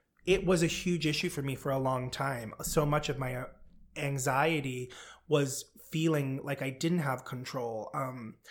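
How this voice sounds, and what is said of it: Choked-up, emotional voice. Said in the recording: “I'm getting a little choked up ... I know I'm getting choked up.”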